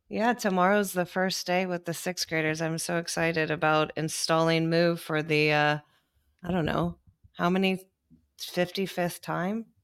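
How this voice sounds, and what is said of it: Hoarse voice. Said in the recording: “I'm a teacher that codes with a hoarse voice ... getting a little bit sick”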